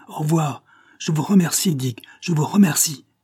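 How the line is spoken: Shouted. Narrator (French): cria-t-il

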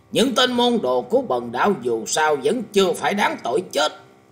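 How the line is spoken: Very angry. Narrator (Vietnamese): Thái Thanh Chân Nhân có vẻ hết sức tức giận lên tiếng nói

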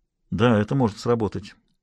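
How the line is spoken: Muttered. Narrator (Russian): пробормотал он

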